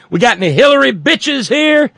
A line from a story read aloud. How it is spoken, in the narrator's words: stand up in the plane and holler